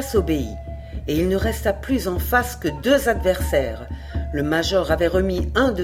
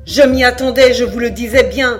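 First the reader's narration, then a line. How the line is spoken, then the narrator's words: Scornful cry. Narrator (French): s'écria le chasseur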